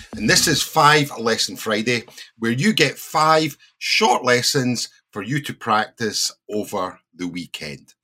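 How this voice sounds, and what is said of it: Scottish accent. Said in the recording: “a native British English teacher ... but with the Scottish accent.”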